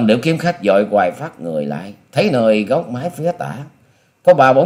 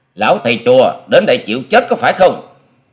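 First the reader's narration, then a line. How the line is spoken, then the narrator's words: Forced shout hiding fear. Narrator (Vietnamese): Tuy thầm giật mình khiếp hãi, song Long Điểu Kiếm Khách cũng cố dằn y đưa giọng quát lên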